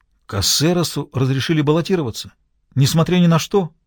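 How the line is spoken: Exclaiming. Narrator (Russian): воскликнул Агустин

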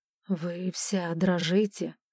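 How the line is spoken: Gentle remark. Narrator (Russian): мягко заметил

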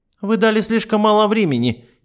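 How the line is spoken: Snide reply. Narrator (Russian): ехидно ответила она

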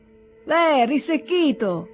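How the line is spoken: Angry shout. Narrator (Italian): gridò arrabbiato lo scrivano

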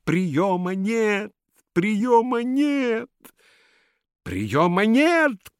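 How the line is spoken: Shouting in sleep. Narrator (Russian): кричал Каин Александрович, просыпаясь от звуков собственного голоса

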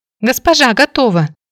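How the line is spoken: Exclaimed. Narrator (Russian): воскликнула Молли

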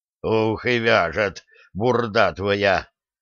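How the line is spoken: Grimacing, through gritted teeth. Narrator (Russian): скривившись, процедил Лихой

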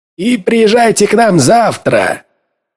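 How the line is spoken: Shout. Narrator (Russian): крикнул Эден

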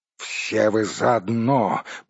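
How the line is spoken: Growled angrily. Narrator (Russian): прорычал Торин

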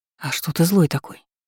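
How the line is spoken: Quiet question. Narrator (Russian): Тихо поинтересовалась

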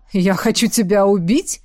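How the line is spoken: Smirking grunt. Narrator (Russian): хмыкнула ведьма

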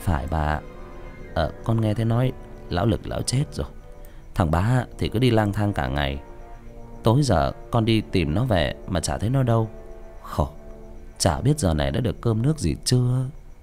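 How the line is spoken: Sighing. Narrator (Vietnamese): thở dài nói chuyện với cụ

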